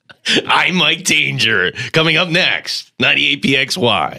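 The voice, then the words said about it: Imitates a radio announcer's voice. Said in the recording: “my fake Mike Danger voice ... my Mike Danger impression ... Do I sound like Casey Kasem?”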